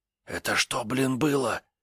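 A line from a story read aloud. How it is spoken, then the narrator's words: Whispered question. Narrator (Russian): спросил я шепотом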